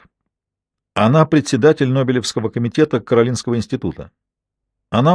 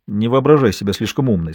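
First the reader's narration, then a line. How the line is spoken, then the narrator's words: Plain. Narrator (Russian): сказал Ка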